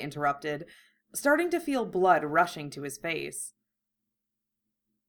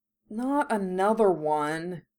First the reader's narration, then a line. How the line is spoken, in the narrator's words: Ron grumbled